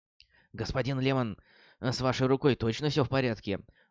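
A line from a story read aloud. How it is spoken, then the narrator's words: Worried question. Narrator (Russian): взволнованно поинтересовался Левин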